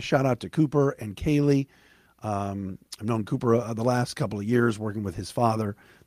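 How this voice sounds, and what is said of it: Hoarse, tired-sounding voice. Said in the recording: “I am hoarse today. ... this is how you come home sounding uh, hoarse, exhausted”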